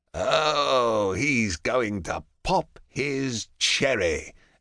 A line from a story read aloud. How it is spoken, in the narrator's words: Ajax purrs